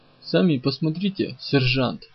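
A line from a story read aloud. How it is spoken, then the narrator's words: Plain. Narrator (Russian): ответил тот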